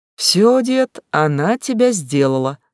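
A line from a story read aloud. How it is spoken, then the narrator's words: Laughing woman. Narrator (Russian): засмеялась женщина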